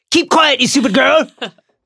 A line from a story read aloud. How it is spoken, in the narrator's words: Snape shouted, looking suddenly quite deranged